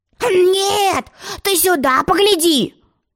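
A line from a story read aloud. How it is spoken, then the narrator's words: Loud yell. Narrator (Russian): завопил он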